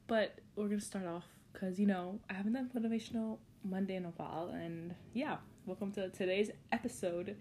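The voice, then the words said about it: Slightly sick, off-sounding voice. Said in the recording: “apologize for my voice ... I'm currently a little bit sick, and so it's not as satisfying as normal”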